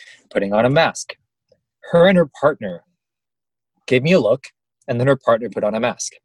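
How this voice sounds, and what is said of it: Usual voice. Nothing is said of it.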